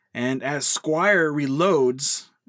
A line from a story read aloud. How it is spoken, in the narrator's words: Kenneth yells out to him